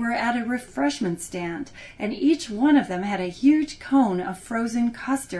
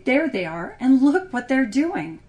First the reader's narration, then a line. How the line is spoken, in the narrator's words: His wife said sharply